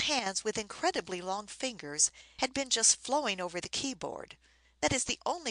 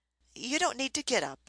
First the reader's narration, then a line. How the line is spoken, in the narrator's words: I said hastily